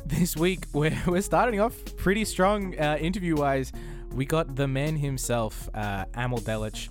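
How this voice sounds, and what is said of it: Australian accent. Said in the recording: “down here in Australia. Couldn't you tell from my accent?”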